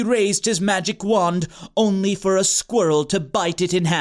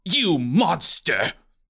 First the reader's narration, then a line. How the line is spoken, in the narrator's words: Bernard spat